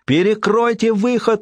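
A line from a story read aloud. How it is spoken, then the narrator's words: Shouting again. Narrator (Russian): вновь закричала Сински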